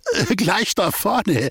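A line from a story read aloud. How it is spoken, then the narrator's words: Laughing shopkeeper. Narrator (German): lachte der Ladeninhaber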